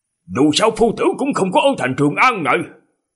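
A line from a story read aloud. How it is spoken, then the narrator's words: Exclaiming. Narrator (Vietnamese): Nhan Sắc kêu lên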